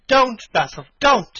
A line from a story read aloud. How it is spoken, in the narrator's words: he cried